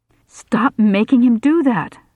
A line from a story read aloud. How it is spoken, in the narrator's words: I shouted at him